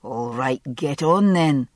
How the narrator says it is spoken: under his breath

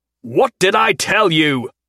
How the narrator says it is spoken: he bellowed

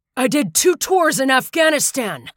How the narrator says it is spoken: Vihil shouted

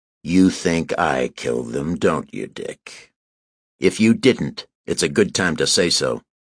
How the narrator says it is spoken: I said, making myself drawl the words

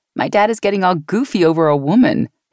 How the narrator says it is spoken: he chuckled

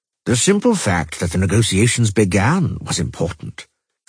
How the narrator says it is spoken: calmly protested the pilgrim

